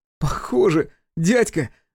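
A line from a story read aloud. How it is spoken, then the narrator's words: Laughing boy. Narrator (Russian): засмеялся Максимка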